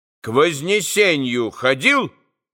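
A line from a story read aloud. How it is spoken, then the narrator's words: Stern, insistent question. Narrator (Russian): Строго и настойчиво вдруг спросил он его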